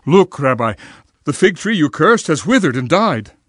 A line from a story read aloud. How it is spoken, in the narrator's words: Peter exclaimed